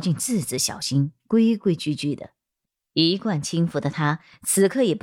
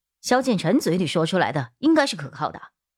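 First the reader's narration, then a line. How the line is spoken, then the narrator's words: Cold. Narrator (Chinese): 木子爷冷冷道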